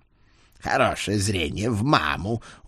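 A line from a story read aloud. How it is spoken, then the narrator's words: Satisfied grunt. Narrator (Russian): удовлетворенно хмыкнул Эд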